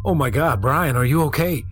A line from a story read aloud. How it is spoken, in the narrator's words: I shouted